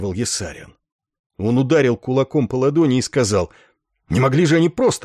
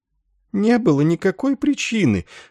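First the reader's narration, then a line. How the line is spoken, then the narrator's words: Old woman moaning. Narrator (Russian): стонала старуха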